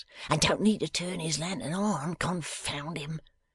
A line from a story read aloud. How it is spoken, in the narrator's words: muttered Silas